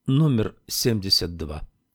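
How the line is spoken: Calm. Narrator (Russian): сказал он спокойно

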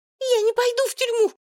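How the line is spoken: Sudden shriek. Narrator (Russian): внезапно взвизгнула Алена

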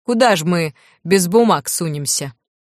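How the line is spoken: Sudden sharp chuckle. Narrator (Russian): Лю неожиданно резко хохотнул

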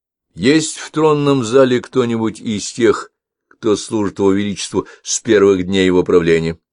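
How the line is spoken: Plain. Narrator (Russian): спросил он

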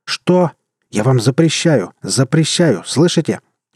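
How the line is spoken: Angry growl while struggling. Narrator (Russian): гневно прорычал Мюрат, освобождаясь от ремней

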